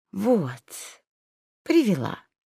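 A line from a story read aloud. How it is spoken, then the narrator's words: Calm, fawning voice. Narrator (Russian): Удивительно спокойным, даже каким-то угодливым голосом, присмиревшая Лайха сказала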